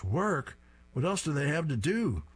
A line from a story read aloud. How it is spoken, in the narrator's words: Drabble shouts